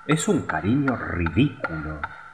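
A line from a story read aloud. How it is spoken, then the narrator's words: Murmuring group. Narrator (Spanish): murmuraban las otras golondrinas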